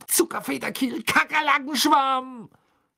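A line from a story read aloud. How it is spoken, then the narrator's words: Angry shout while hopping. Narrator (German): schrie er zornig auf einem Bein hüpfend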